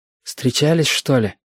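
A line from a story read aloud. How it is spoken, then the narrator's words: Whispered question. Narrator (Russian): шепотом спросил ежики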